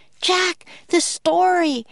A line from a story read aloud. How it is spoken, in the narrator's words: cried Annie